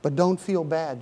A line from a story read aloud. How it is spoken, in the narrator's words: said